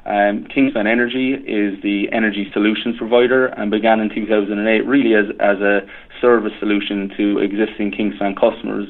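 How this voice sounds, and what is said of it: Irish accent. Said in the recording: “I can kind of tell from your accent that you have some Irish roots.”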